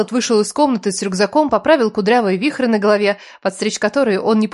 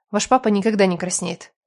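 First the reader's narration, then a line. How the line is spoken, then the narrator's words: Grumbling. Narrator (Russian): пробурчала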